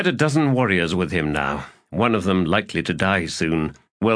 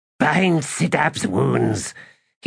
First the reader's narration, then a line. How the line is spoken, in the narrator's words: he now said in a growl